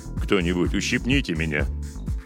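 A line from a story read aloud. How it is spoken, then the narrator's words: Grumbled from behind, captain. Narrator (Russian): буркнул позади капитан Робертс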